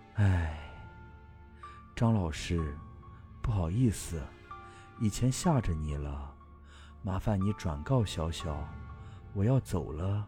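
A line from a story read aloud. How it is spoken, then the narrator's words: Sighing old woman. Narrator (Chinese): 婆婆叹了口气，继续说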